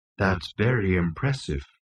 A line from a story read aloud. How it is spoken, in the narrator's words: murmured Marvin